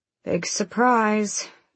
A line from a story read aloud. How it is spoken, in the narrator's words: Aelin muttered